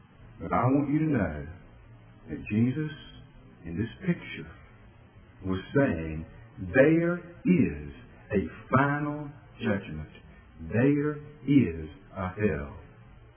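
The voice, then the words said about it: Lowered, quiet preaching voice. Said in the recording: “I'm going to lower my voice. I'm not going to pound the pulpit. I'm not going to scream.”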